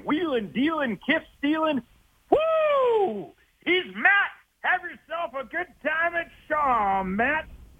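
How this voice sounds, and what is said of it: Over-the-top pro wrestler promo voice. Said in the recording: “in your best WWE voice”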